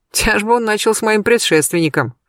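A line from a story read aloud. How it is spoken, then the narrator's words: Smirking grunt. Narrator (Russian): хмыкнул Сергей Львович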